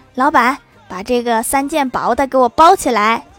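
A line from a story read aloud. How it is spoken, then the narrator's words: Smiling, calling out. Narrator (Chinese): 郭大嫂笑了笑，叫老板说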